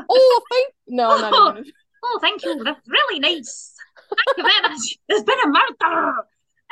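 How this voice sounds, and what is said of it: Put-on Scottish accent. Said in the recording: “in a Scottish accent.”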